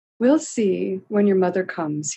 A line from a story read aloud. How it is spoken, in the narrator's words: he would say kindly